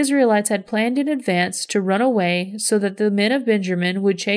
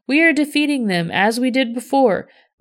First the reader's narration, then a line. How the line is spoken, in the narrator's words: the warriors of Benjamin shouted